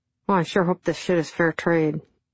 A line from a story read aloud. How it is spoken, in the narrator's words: he mumbled